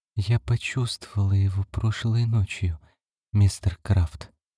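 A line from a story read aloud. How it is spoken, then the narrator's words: Whispered. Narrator (Russian): прошептала Карлотта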